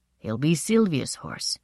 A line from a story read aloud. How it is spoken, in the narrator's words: said quite solemnly